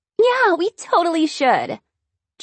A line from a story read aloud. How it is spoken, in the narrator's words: squealed